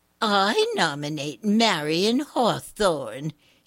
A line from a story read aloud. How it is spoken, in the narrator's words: said in her prissiest voice